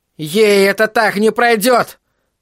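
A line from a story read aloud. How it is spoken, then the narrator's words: Hysterical shout. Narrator (Russian): Крис Харгинсон истерично выкрикнула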